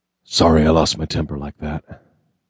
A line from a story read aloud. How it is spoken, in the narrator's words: said gruffly